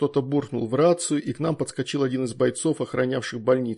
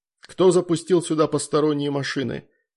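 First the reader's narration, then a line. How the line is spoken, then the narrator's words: Stern question. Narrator (Russian): строго спросил Геннадий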